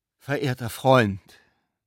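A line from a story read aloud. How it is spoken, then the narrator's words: Solemn, measured exclamation. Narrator (German): rief der Besucher mit getragener Stimme aus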